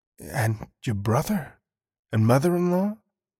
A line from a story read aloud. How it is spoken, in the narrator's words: horrified inspector whispered, afraid to ask